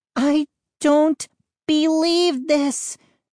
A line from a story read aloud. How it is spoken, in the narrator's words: Mindy cried